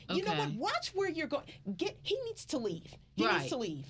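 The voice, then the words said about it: Irate entitled 'Karen' character voice. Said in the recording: “my Karen impression ... You are an amazing Karen”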